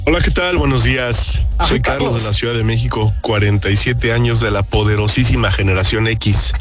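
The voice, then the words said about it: Radio announcer voice. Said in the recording (Spanish): “¿tienes voz de locutor? ... Sí, lo haces muy bien”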